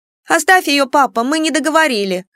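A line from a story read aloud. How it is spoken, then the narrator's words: Irritated. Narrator (Russian): раздраженно произнесла Кико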